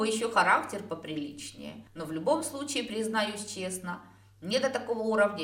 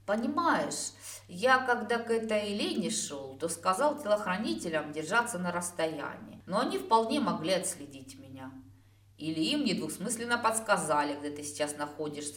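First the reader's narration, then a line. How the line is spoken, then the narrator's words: Gloomy addition. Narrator (Russian): мрачно дополнил мысль Сирин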